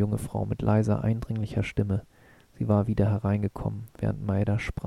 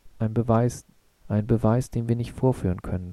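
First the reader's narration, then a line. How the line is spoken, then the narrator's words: Plain. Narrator (German): sagte er dann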